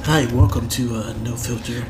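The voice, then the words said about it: Mock sexy radio host voice. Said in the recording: “You're trying to throw your sexy radio voice on. ... That's exactly what you sound like.”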